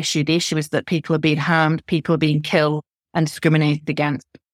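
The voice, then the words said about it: Northern English accent. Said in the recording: “I'm a northerner, my accent, you can tell”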